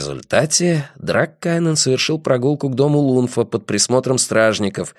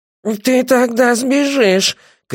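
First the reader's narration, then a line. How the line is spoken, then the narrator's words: Shouted. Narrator (Russian): крикнул Лиф Даг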